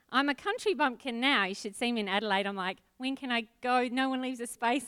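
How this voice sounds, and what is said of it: New Zealand accent. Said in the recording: “can you tell already that I'm from New Zealand? ... So I'm from Auckland in New Zealand. ... Somehow this accent just sticks around.”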